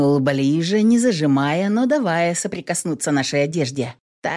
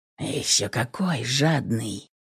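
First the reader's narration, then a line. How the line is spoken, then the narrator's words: Breathy whisper. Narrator (Russian): выдохнул шепотом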